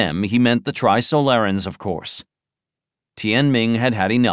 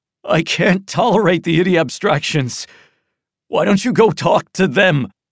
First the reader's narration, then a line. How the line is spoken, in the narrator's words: Gasping, said, despairingly